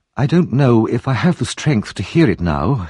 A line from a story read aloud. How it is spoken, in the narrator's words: murmured